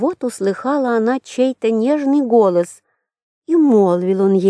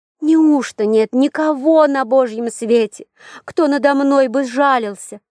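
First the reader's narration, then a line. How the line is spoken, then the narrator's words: Muffled exclamation through hands. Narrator (Russian): закрыла руками лицо и воскликнула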